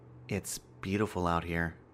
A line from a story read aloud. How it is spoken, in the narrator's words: Ben whispered